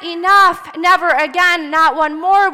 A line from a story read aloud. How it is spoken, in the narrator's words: they cried